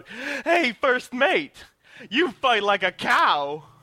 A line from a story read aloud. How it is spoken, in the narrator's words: shout out